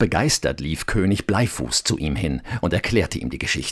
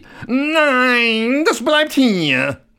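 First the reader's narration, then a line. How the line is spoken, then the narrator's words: Frightened scream. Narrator (German): Koks erschrak und schrie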